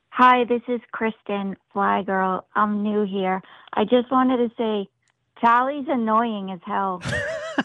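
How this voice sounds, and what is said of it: American Northeast accent. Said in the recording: “Are you from the Northeast? ... I like your accent.”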